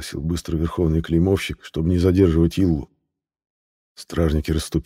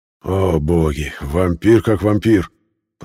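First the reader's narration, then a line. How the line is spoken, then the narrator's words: Sleepy grumble. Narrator (Russian): пробурчал полусонный Ертен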